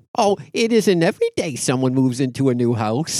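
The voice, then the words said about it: Aunt Bethany character impression. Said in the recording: “do a little Aunt Bethany impersonation”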